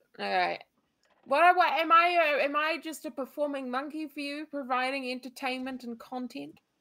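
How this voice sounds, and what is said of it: Speaks with a noticeable accent. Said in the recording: “Say something funny in your accent.”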